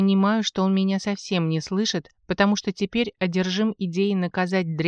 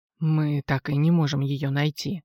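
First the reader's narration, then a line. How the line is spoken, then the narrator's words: Tired voice over phone. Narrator (Russian): устало заявляет Володя по телефону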